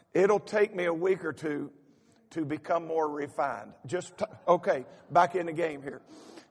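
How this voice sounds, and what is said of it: Strong regional accent. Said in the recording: “Is my accent worse than it was when I left?”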